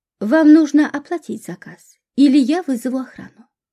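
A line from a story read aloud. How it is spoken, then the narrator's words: Calm. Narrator (Russian): спокойно произнес официант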